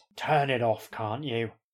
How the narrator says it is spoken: growls a man from the adjacent room

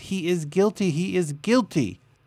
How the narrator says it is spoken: A man called for jury duty in Hawaii shouted

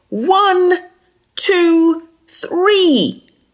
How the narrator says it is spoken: cried Dudu

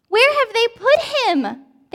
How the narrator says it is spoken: They cried

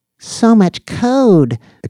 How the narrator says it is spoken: exclaimed Danny

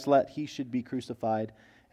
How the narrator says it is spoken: demanding with loud cries

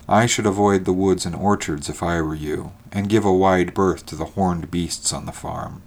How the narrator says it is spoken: said Mortimer in his even, dispassionate tone

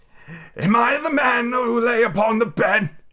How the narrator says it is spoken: he cried upon his knees

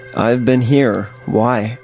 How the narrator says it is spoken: I asked

